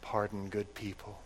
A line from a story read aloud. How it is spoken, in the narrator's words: she whispered